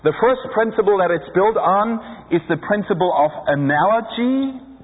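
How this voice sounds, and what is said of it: Non-native English accent. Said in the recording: “Can you understand my accent? I have a hard time pronouncing these names.”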